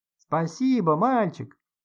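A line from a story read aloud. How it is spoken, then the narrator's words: Squeaky shouting. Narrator (Russian): Писклявыми голосами кричали они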